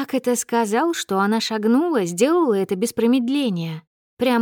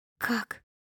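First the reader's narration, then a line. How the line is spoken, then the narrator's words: Whispered question. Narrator (Russian): спросила она шепотом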